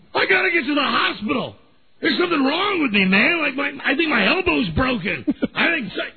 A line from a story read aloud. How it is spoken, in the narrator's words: I'm screaming